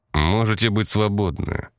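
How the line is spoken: Dry, curt. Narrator (Russian): сухо сказал связной

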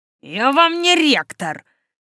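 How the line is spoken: Barked. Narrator (Russian): рявкнул Сад

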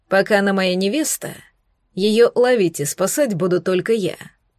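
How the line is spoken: Cold clipped reply. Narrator (Russian): холодно отчеканил Эритар в ответ

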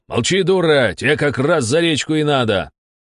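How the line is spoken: Straining angry bark. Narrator (Russian): ее муж, красный от натуги, рявкнул

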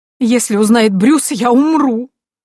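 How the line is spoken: Mother-in-law's sudden loud sob. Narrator (Russian): вдруг громко всхлипнула свекровь

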